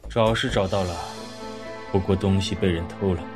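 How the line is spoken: Muttering. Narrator (Chinese): 李安嘟囔着

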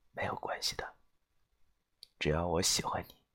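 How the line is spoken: Soft, gentle. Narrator (Chinese): 他柔声的说道

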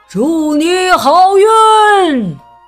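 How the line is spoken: Loud group shout. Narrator (Chinese): 村民们大声喊道

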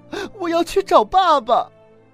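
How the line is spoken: Crying, shouting. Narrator (Chinese): 贝尔哭了，他喊着

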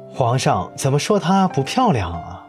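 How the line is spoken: Loud. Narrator (Chinese): 那个甲上嵌着金花、盔上蹲着一头双翼雄狮的人，大声说

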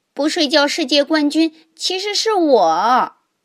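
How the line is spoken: Shouting loudly. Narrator (Chinese): 霹雳鼠也大叫着

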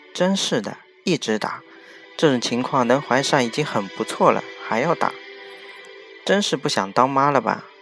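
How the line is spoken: Plain. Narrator (Chinese): 丽丽对心神不宁的我说

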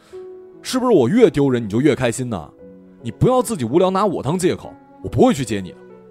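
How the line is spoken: Shouting. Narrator (Chinese): 旅行在这种怪异的陌生感中吼了一声

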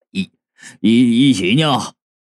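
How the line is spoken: Laughing. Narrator (Chinese): 兵差 笑着道

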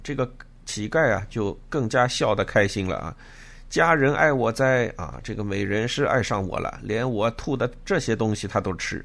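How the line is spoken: Beggar laughing loudly. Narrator (Chinese): 乞人大笑曰

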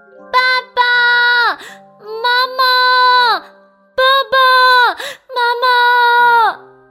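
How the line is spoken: Calling repeatedly. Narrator (Chinese): 他不断的叫啊叫啊

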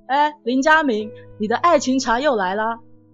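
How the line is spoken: Teasing, joking. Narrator (Chinese): 同学 开玩笑说

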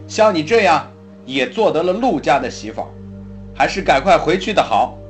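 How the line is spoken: Angry, loud old woman. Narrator (Chinese): 老夫人依然在气头上，高声说

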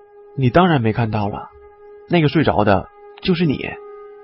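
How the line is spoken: Calm, flat. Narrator (Chinese): 王刚边走边淡淡的说

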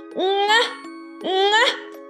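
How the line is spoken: Loud braying. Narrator (Chinese): 小毛驴……冲着他大叫

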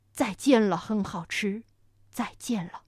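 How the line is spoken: Dinosaur, low voice. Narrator (Chinese): 霸王龙 低声说

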